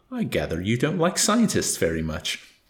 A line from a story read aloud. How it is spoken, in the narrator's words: he grumbled